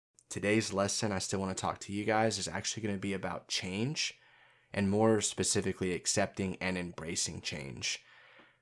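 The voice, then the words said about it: Voice sounds different than usual. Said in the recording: “my voice is a little bit different. I woke up today and it was 30 degrees. That's freezing cold.”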